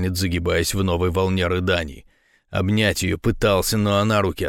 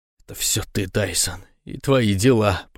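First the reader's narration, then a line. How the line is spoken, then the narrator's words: Through gritted teeth, crying. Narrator (Russian): процедила сквозь зубы и снова заплакала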